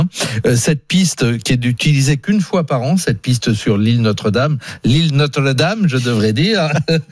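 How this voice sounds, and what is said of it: Put-on Canadian French accent. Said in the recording (French): “Quel accent canadien.”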